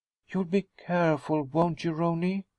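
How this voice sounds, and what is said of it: Low, quiet voice. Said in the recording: “she asked in a low voice”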